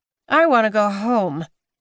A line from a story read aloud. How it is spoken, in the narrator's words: Maud grumbled